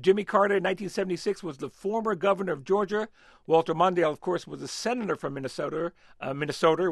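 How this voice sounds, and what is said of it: Bronx accent. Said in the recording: “that's my Bronx accent”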